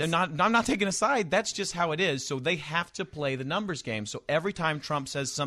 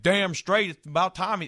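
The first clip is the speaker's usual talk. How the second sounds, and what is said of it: Put-on Alabama/Texas accent. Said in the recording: “I can do that accent. I'm from there. ... you're from Alabama and Texas”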